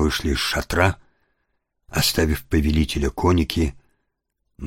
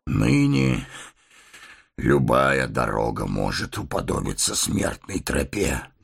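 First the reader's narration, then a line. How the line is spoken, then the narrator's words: Grim chuckle. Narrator (Russian): мрачно усмехнулся Теоден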